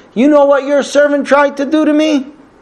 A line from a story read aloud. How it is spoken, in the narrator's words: his wife starts yelling at him